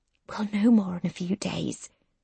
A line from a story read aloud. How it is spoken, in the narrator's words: whispers